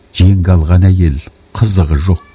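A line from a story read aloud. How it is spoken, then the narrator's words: Sighing. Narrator (Kazakh): деді жантас күрсініп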